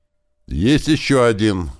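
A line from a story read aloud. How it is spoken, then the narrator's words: Shout from aside. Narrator (Russian): крикнул откуда-то сбоку Клёпа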